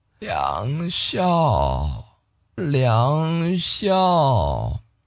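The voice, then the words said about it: Quiet, hushed calling of a name. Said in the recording (Chinese): “小声的念着自己的名字”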